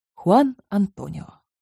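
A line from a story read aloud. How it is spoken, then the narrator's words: Very tender, gentle. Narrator (Russian): очень ласково сказал я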